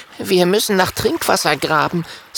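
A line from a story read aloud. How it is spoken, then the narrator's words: Plain. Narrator (German): sagt Kokosnuss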